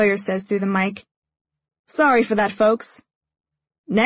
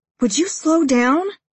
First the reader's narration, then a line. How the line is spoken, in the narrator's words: I plead